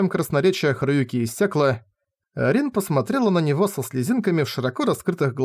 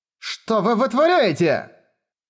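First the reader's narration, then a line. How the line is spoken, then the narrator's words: Shouted. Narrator (Russian): кричала Черноснежка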